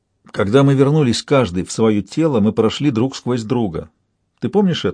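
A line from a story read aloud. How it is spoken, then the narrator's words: Plain. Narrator (Russian): спросил Шут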